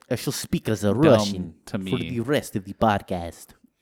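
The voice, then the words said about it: Put-on Russian accent. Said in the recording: “That's your Russian accent? ... This is my Russian accent.”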